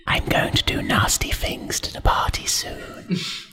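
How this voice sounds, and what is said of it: Creepy whisper. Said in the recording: “I'm whispering in your ear ... Wow, that sounded so creepy.”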